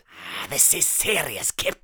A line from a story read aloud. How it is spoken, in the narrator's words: snapped Atticus